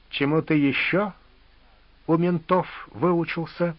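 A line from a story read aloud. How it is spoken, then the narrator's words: Slow smiling question. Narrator (Russian): медленно спросил зубач, не переставая улыбаться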